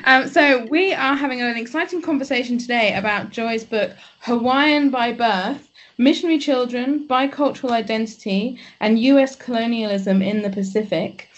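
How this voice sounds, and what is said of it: English accent. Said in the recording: “I'm the one with the English accent”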